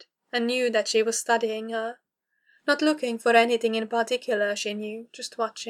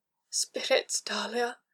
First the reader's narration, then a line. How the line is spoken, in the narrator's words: she groaned, struggling to keep her hips from bucking in Dahlia's hands